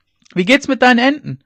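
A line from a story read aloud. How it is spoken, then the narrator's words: Calling after someone. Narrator (German): rief er ihr noch nach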